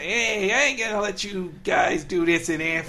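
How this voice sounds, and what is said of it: Put-on New York accent. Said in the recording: “I like that New York accent.”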